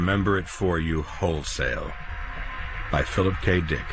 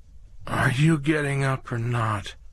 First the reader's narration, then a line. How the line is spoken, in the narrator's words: his wife Kirsten asked drowsily, with her usual hint of fierce crossness